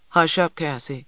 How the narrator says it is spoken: Big Ma said

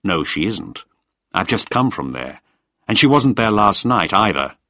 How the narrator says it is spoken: said firmly

